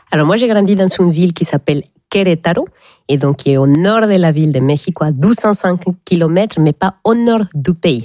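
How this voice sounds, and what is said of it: Slight Mexican accent in French. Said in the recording (French): “Vous avez un petit accent qui vient du Mexique”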